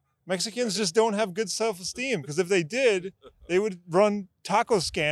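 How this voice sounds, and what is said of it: Usual voice. Nothing is said of it.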